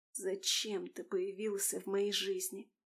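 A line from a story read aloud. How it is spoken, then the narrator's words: Anguished whisper. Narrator (Russian): Одними губами прошептала Алиса, и голос звучал с мукой и болью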